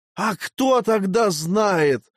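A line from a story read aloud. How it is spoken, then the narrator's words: Near howl. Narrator (Russian): чуть не взвыл лопух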